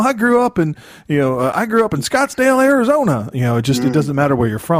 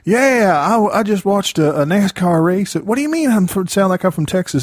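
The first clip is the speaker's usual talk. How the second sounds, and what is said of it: Put-on redneck Southern accent. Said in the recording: “you can spot that redneck accent... That accent sort of is pervasive everywhere.”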